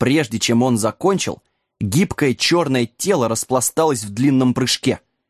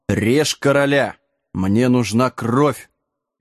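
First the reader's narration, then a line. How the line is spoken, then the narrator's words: Muffled giant's command. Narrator (Russian): глухо приказал голый гигант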